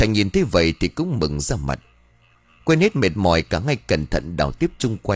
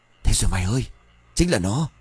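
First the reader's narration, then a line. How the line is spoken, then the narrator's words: Soft excited exclamation. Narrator (Vietnamese): Sơn khẽ reo lên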